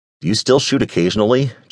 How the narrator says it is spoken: Jay asked

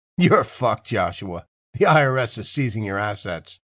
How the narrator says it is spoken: chuckled

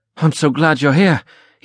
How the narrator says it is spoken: he anxiously uttered

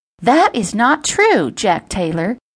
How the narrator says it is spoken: Jilly playfully scolded

